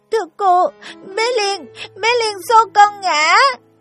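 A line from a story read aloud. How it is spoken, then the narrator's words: Crying, breathless child. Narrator (Vietnamese): Em nước mắt giàn giụa, hổn hển, nghẹn ngào nói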